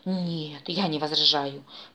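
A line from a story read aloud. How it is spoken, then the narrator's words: Purring. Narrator (Russian): Продолжил мурлыкать великолепный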